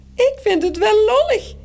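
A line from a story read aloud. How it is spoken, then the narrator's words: Squeaking in another's voice. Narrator (Dutch): piept Morrel met de stem van Toos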